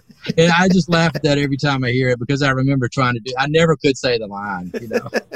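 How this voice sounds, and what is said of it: Alabama Southern drawl. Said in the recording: “You got that Alabama accent kind of too, right? ... Yeah, it's a drawl”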